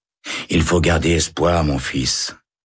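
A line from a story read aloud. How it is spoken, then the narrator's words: Sighing chaplain. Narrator (French): soupire l'aumônier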